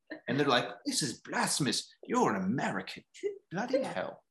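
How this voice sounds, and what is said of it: Deliberately bad British accent. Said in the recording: “It's horrible accent.”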